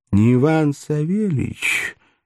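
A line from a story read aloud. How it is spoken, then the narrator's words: Nasty nasal voice. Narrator (Russian): осведомилась трубка препротивным гнусавым голосом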